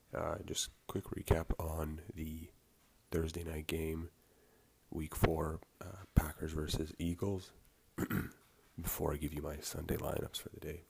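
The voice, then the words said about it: Raspy, just-woken-up voice. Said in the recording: “raspy voice this morning... Just woke up not that long ago and still haven't fully woken up yet”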